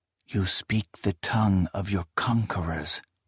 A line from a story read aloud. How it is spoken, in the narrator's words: Kellis whispered